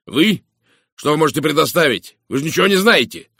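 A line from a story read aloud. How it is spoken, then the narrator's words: Sharp shout. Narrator (Russian): резко выкрикнул он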